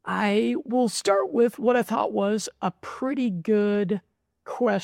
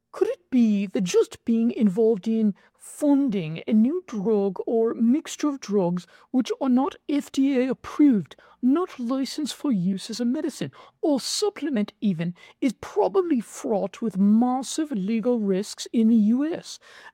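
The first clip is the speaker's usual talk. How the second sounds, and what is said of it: Attempted British English accent. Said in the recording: “Let me try a British accent. I've been practicing this. This might be a terrible, terrible English accent.”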